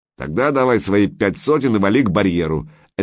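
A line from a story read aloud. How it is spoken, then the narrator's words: Gruff man barking. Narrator (Russian): рявкнул мрачный тип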